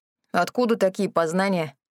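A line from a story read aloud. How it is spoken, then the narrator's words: Scoffing snort. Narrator (Russian): хмыкнул Рэнди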